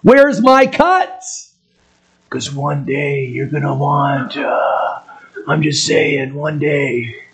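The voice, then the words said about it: Bad Godfather impression. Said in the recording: “That's a really bad impersonation of the Godfather, okay? But really bad.”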